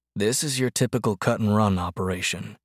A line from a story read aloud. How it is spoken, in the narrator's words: instructed Duckers in a low voice